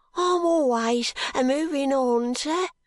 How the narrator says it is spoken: cries the boy

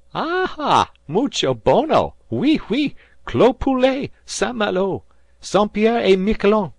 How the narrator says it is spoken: cried the other crowd, laughing

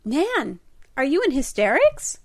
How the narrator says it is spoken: cried Di

